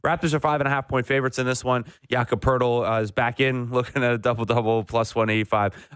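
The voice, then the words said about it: Tired, unenthusiastic voice. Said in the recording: “my lack of enthusiasm in my voice is a tiredness issue”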